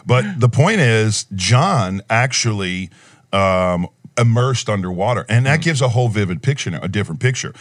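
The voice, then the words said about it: Thick New Orleans accent. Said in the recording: “That New Orleans accent. ... Yeah, the New Orleans accent is thick.”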